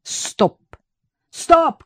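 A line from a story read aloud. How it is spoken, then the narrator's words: Shout. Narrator (Russian): крикнул Виктор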